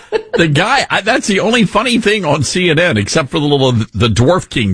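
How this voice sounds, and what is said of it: Usual voice. Nothing is said of it.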